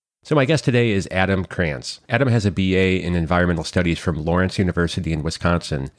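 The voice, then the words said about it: Congested head-cold voice. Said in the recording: “my voice is a little, well, off. I do have a head cold”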